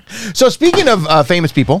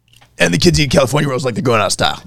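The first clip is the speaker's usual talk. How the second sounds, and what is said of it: Imitates another person's voice. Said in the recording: “Is that your Will Arnett impression? ... That's my Will Arnett.”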